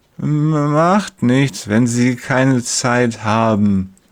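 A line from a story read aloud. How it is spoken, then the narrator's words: Slurred, heavy tongue. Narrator (German): lallt mit seiner neuen schweren Zunge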